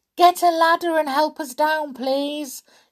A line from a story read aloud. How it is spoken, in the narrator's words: shouted Peter